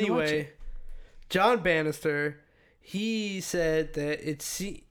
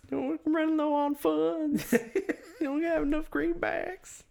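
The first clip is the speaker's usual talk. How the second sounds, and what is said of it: Put-on southern accent. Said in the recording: “It's like when Oscar tries to do a southern accent”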